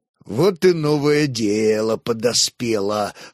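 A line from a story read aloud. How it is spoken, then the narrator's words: Snorting into mustache. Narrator (Russian): хмыкнул в усы Хорь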